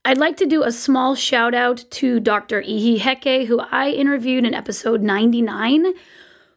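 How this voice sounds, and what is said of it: Hoarse voice. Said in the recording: “You can hear it in my voice. It's hoarse from just saying yay”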